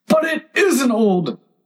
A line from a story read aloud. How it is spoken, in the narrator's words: Tweedledum cried in a greater fury than ever